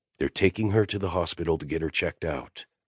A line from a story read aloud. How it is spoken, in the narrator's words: he said, keeping his voice low